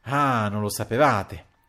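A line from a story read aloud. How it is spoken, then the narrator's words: Exclamation. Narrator (Italian): esclamò il conte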